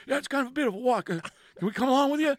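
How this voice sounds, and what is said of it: Impression of a hockey player's voice. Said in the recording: “best Nathan MacKinnon impression”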